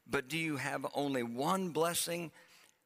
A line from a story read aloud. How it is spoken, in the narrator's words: Esau pleaded